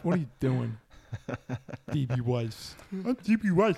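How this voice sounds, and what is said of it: Imitates another person's voice. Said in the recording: “That's me being him. That's me doing an impression of him.”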